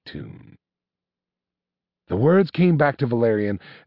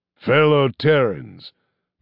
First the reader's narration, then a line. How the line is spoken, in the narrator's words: began his father, his voice booming its pronouncement like that of a stern but magnanimous god